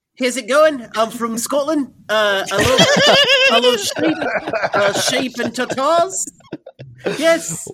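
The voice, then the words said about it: Put-on Scottish accent. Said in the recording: “How's your Scottish though? ... Wow, that's really good. That's really good, actually.”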